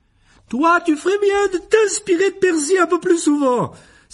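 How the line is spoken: Exclaimed. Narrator (French): s'écria Madame Wesley

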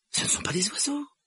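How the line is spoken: Exclaimed. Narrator (French): s'écria Harry

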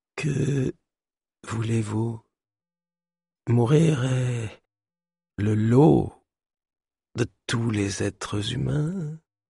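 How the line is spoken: Dying whisper. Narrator (French): murmura Mercant avant de rendre son dernier souffle

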